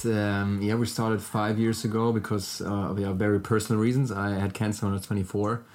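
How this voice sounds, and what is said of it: German accent. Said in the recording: “sorry for my German accent”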